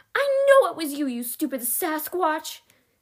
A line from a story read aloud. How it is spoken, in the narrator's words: Stina screamed